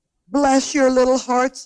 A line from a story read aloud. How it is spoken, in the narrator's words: he cried, falling to his knees